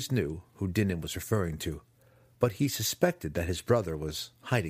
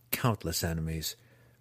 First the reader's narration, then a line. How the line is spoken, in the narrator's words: replied Drizzt with a heavy sigh